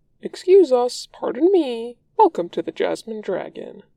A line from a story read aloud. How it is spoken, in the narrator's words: Uncle says cheerfully